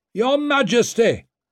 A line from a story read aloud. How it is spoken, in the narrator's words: someone shouted from near the back